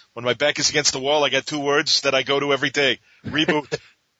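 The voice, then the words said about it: Danny DeVito impression. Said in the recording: “in my Dan DeVito voice”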